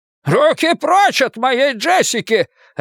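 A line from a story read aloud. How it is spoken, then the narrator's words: Grandfather barking. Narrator (Russian): рявкнул дедушка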